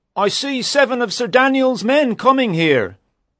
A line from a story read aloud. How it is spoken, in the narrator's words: Suddenly, a man up a tall tree cried